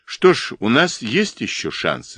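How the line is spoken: Plain. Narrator (Russian): сказал фон Шлиден

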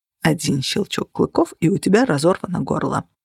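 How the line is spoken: Mutter. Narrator (Russian): пробормотал

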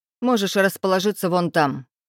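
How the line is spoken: Irritated curt remark. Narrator (Russian): раздраженно бросил Венцеслав

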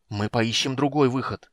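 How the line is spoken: Angry hiss, young woman. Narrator (Russian): сердито прошипела девушка

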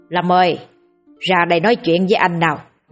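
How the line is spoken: Loud yell. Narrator (Vietnamese): thằng Long gào lên

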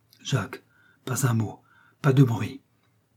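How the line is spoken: Pleading voice. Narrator (French): dit Marthe, d'une voix suppliante

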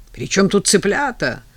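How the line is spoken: Yelling. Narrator (Russian): заорал дядька

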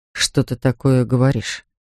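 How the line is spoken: Puzzled, sad question. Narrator (Russian): недоуменно и печально спросил Вилар

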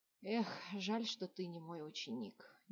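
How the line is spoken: Displeased grumbling. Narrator (Russian): недовольно проворчал маг

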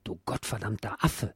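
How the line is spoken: Quiet muttering to himself. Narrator (German): sagte ziemlich leise und monologisch

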